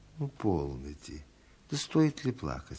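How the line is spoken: Gentle. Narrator (Russian): сказал он ласково

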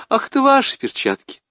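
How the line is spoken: Laughing speech. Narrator (Russian): Сквозь смех она говорит мне

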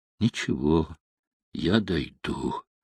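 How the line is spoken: Sad, weary speech. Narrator (Russian): Грустно улыбаясь, устало сказал

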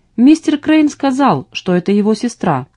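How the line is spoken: Calm confirmation. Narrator (Russian): спокойно подтвердил Джеймс

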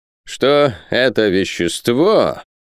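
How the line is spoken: Solemn, syllable by syllable. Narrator (Russian): продолжал профессор, торжественно скандируя каждый слог

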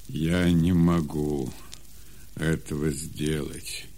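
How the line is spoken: Sad reply. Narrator (Russian): печально отвечал Исаак

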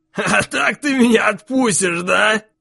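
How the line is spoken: Openly laughing. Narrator (Russian): уже откровенно засмеялся он

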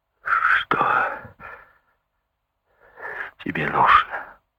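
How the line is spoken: Forced out, strained. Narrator (Russian): Наконец выдавил из себя Карлос

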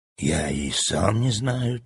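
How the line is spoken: Quiet, boy. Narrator (Russian): так же тихо ответил мальчик

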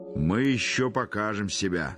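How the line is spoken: Guffawing. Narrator (Russian): захохотал Михаил Аверьянович

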